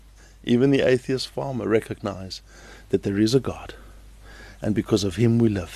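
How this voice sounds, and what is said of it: Usual voice. Nothing is said of it.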